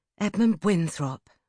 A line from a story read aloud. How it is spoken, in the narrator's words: sighed